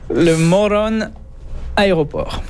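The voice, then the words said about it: Spanish-sounding accent. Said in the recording (French): “vous l'avez prononcé un petit accent, là. ... à l'espagnol, là.”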